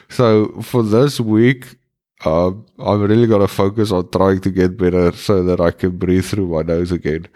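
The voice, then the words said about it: Congested, blocked-nose voice. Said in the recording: “currently I cannot breathe through my nose. Well, I can, but it is really difficult... as you can hear, I have a bit of a cold.”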